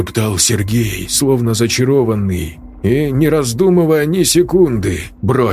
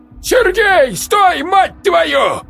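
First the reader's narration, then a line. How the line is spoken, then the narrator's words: Yelled. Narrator (Russian): заорал Матвеич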